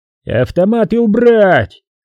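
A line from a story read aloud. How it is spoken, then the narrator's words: Thunderous yelling. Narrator (Russian): орал невидимый руководитель, голос которого громом разносился над стеллажами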